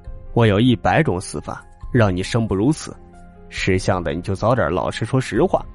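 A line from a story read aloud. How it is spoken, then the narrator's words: Menacing snicker. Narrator (Chinese): 鬼子头嘿嘿的两笑，让翻译告诉张爷说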